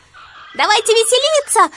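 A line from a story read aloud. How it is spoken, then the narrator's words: Group of monkeys shouting. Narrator (Russian): закричали остальные обезьяны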